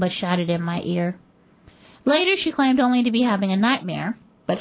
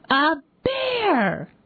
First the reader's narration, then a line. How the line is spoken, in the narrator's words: Goomba shouted